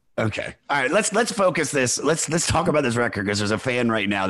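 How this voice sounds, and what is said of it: Usual voice. Nothing is said of it.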